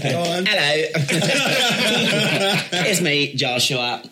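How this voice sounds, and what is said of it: Deliberately bad put-on British accent. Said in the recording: “a British guy with a... That's a bad accent, isn't it? ... it's a good bad accent.”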